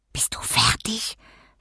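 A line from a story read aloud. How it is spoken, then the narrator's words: Whisper. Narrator (German): flüsterte ich Johanna zu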